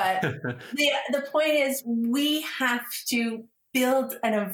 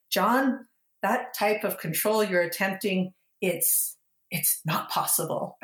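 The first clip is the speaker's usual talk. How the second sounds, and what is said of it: Poor impression of a film character. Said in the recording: “did a really terrible impression”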